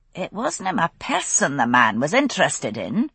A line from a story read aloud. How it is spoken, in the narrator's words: Jocasta said sharply